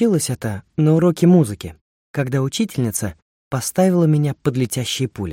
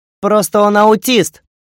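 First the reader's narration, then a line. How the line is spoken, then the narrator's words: Shout from back row. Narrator (Russian): выкрикнул Илья с последней парты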